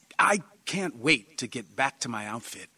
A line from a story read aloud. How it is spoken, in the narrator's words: John said eagerly